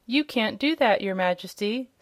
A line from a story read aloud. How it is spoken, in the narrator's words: said the Majordomo